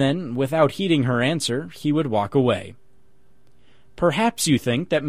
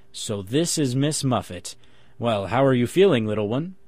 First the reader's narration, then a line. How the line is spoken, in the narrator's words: Muffet, when he met his little daughter by chance on the walk or in a hallway, would stop and look at her and gravely say